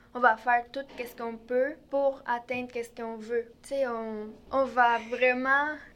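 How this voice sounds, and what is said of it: Strong Mexican accent in French. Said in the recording (French): “cet accent et cette apparence plus mexicaine ... j'ai un gros accent”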